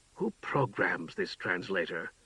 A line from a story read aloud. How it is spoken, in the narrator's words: Shan snarled in a whisper